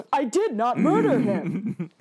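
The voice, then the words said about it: Imitates another person's voice. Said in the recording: “her impression of the Alan Tudyk line ... it's pretty good”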